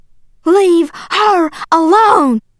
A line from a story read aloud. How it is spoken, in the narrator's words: yelling